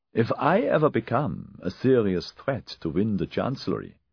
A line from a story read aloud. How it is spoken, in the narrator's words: Peter had said